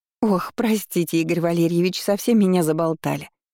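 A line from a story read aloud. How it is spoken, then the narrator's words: Pleased giggling housekeeper. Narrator (Russian): хихикнула экономка, явно довольная вниманием молодого хозяина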